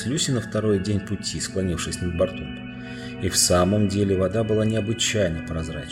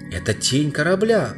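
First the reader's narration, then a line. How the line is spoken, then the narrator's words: Exclaimed. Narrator (Russian): воскликнула Люси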